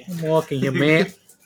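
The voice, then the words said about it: Put-on New York accent. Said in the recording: “New Yorkers have an accent too.”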